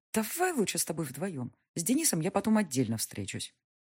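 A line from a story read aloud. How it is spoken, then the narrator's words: Mutter suppressing nervous laughter. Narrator (Russian): Подавив нервный смех, я пробормотала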